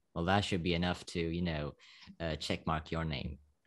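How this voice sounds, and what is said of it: Slovak accent in English. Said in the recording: “I'm from Slovakia. You know, I think you can hear it on my accent.”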